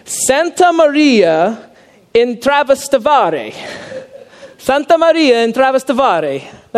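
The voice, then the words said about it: Put-on Italian accent. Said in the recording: “I'm going to try this in my like Italian accent”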